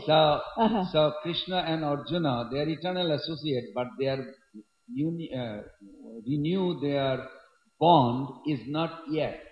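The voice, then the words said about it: Bengali-accented English. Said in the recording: “It's a Bengali accent.”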